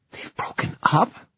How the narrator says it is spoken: Livy whispered

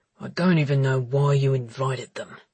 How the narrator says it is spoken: grumbled Connor

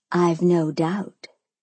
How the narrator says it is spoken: I breathed, the space between us now crackling with tension that was becoming ridiculously hard to ignore

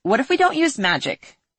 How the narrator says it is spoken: She shouted at the referee

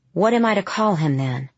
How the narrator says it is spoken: Her uncle sighed at length

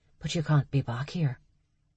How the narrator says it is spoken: she whispered

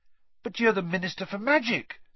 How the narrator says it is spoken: said Harry eagerly

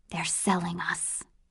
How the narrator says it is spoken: she whispered

